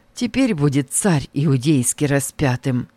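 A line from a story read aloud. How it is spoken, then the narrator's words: Quiet. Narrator (Russian): И тихо Варавва сказал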